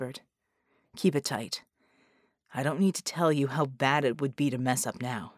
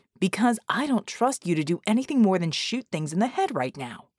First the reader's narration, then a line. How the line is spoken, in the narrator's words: Red snapped